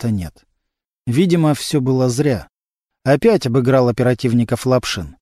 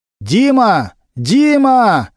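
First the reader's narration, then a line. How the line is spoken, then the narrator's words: Loud shout. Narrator (Russian): громко крикнул Немирович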